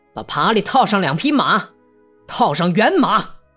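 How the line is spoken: Shout. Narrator (Chinese): 他冲到台阶上喊道

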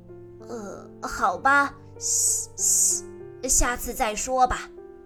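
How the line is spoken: Hissing snake mumble. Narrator (Chinese): 蛇咕哝道

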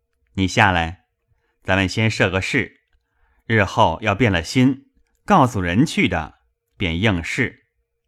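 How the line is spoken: Smiling, laughing. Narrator (Chinese): 香莲向薛蟠笑道

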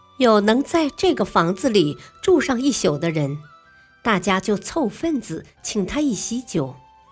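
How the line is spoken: Joking. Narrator (Chinese): 有人开玩笑说

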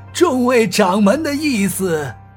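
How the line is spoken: Smiling. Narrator (Chinese): 郑天明又是笑了笑

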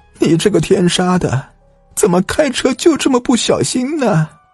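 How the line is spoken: Crying shout. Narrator (Chinese): 吴正雄的母亲 哭着喊道

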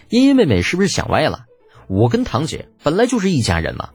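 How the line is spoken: Smirking, teasing. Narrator (Chinese): 李浩坏笑着对程茵茵打趣道

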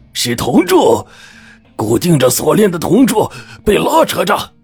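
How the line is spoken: Shouting. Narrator (Chinese): 老姜大叫

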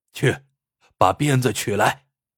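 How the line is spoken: Resolute command. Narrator (Chinese): 徐焕一咬牙，吩咐家丁道

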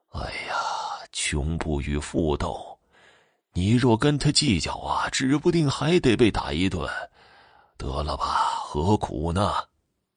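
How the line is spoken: Sighing. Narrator (Chinese): 竹竿老爹叹息着说道

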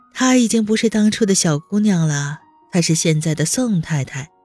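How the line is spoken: Bitter laugh. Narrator (Chinese): 低头苦笑一声

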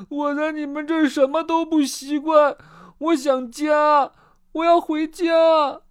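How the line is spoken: Loud wailing sobs. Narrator (Chinese): 可可放声大哭起来

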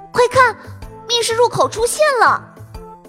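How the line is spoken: Loud shout. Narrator (Chinese): 陶乐斯大喊一声

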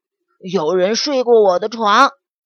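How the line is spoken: Roaring. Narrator (Chinese): 熊爸爸咆哮道

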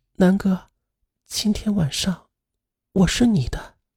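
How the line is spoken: Soft, intimate. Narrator (Chinese): 在他耳边柔声的说道

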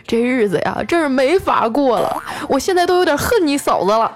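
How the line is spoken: Tearful complaint. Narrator (Chinese): 调调哭诉

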